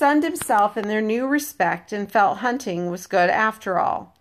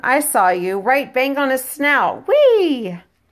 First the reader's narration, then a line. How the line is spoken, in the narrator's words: Ralph talked on excitedly